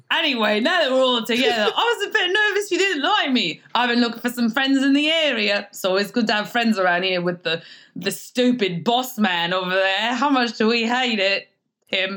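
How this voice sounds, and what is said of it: Put-on accent, voice shifts mid-speech. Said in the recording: “did your voice change mid-conversation there? ... where's that accent there from anyway?”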